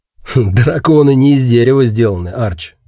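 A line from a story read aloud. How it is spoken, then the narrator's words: Snorting, wry. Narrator (Russian): хмыкнул Гэрис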